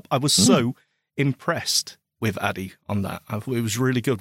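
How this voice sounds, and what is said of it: Emotional, choked-up voice. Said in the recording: “excuse me, I'm getting choked up.”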